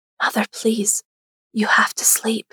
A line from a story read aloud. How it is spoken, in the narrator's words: whispered